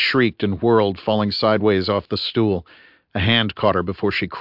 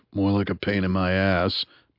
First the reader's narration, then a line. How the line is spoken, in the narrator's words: muttered Bunny